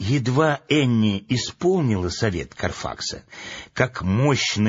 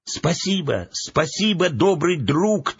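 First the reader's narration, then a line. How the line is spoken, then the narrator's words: Children shouting after. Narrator (Russian): только и успели крикнуть вслед ему дети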